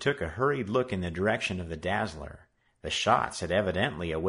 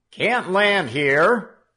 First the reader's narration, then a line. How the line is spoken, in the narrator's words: the soldier shouted back